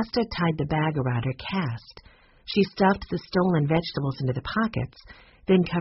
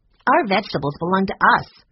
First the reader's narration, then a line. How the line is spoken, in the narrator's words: said Taylor angrily